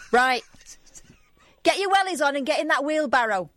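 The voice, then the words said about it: Broad put-on Mancunian accent. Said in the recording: “in the broadest Mancunian-type dialect available”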